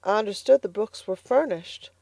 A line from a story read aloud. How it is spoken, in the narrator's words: faltered Elnora